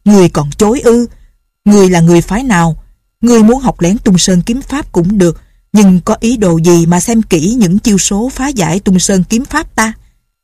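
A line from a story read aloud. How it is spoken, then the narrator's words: Old man's shout. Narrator (Vietnamese): Lão quát một tiếng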